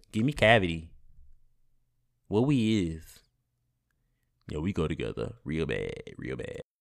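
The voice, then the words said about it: Speaks in a put-on character voice. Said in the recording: “I'm trying to say it in my Carisha voice”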